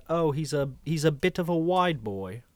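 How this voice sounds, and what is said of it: Bad put-on British accent. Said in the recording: “I'm going to do a bad British accent”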